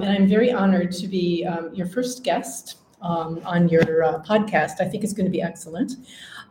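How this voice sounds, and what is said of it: American English accent. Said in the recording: “you can hear by my accent ... from the US”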